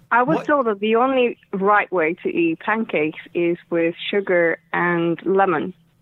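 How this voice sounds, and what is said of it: Estonian accent in English. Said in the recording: “Can I ask your accent? May I ask where you are originally from?... I'm originally from Estonia.”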